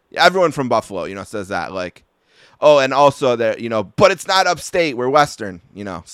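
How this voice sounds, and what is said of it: Buffalo, Western New York accent. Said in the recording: “you pointed out my accent ... the reference to my accent”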